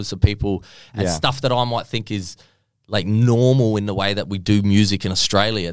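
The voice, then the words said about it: Light Australian accent. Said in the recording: “I have a light Australian accent compared to my family ... This is not strong”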